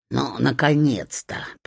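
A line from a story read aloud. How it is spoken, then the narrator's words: Grumbling. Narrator (Russian): пробурчала она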